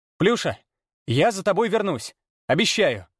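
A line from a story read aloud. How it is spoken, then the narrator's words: Hopeless shout. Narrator (Russian): Без особой надежды на то, что кошка услышит и поймет, крикнул он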